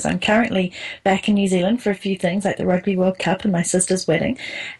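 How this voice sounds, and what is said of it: New Zealand accent. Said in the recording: “I am a Kiwi, in case you didn't notice that from the accent.”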